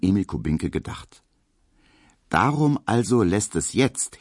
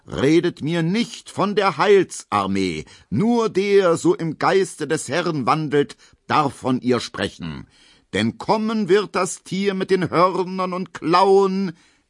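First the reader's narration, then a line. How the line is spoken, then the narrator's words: Lion-like roar. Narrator (German): brüllt er mit Löwenstimme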